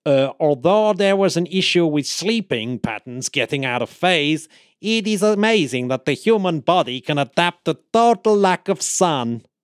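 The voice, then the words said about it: Put-on unidentified accent. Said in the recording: “I don't know what accent I was going for in the end”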